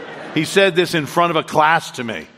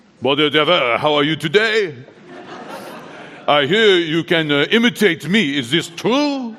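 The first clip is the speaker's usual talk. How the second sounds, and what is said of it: Imitation of a teacher's accent. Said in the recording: “His accent was irresistibly imitable.”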